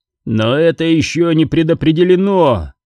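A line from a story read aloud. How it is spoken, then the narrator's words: Shout. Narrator (Russian): выкрикнул он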